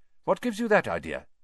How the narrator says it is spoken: he said sharply

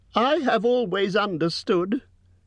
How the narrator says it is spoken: said Bilbo in a frightened squeak

